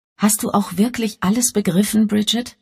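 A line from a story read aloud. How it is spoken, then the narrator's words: Plain. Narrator (German): fragte Elvira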